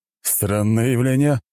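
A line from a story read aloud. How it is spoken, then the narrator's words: Snort. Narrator (Russian): хмыкнул он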